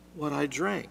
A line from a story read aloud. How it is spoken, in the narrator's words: said